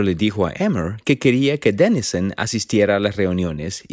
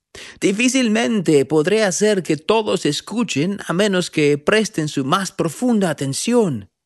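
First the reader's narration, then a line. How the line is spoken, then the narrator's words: Shouting over wind. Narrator (Spanish): gritó el profeta por encima del ruido del viento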